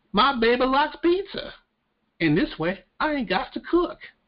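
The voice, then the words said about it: Put-on Southern accent, poorly done. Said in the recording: “My southern accent is terrible. It really is.”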